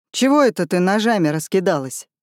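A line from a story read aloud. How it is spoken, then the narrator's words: Snorting. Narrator (Russian): хмыкнул Пугач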